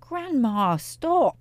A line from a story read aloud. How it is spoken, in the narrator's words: He cried out